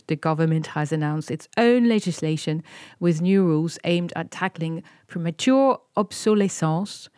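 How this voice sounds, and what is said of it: French accent. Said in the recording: “this is my French accent coming back”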